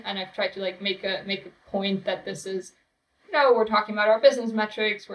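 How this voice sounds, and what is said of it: German accent. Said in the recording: “It's the German accent. ... Exactly. It's the German accent”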